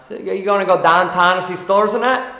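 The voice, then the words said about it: Exaggerated Pittsburgh accent. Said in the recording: “it's kind of South, Midwest, but let's say like downtown... my Pittsburgh accent... you got to say everything with smiling out of the corner of your mouth”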